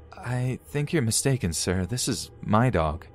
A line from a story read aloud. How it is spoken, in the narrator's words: I just say nervously